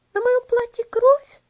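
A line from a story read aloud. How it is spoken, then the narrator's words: Frightened exclamation. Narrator (Russian): воскликнула Элси испуганно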